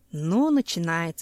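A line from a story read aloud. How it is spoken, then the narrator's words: Sighing. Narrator (Russian): вздохнул Семен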